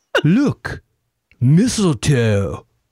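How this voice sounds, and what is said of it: Imitates another person's voice. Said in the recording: “My impression of Robin Hood, Prince of Thieves, Kevin Costner, getting off a boat with Morgan Freeman ... Are you channeling Keanu Reeves?”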